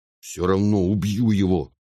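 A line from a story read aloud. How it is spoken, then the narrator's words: Angry. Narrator (Russian): сердито сказал брат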